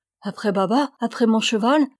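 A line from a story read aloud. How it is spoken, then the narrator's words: Terrified cry. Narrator (French): s'écria Ramona avec terreur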